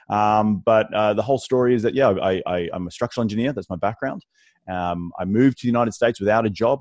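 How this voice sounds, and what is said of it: Australian accent. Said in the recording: “my weird accent, originally from Australia”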